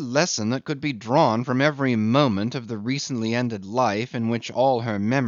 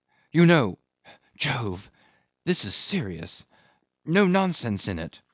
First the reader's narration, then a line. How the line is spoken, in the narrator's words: Jim had whispered hurriedly with a troubled, concerned face